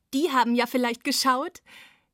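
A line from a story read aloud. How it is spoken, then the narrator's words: Giggled. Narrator (German): kicherte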